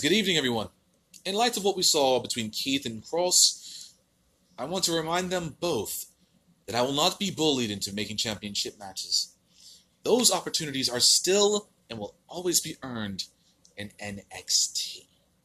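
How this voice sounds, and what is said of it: Put-on British accent, not great. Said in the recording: “My British accent is not the best.”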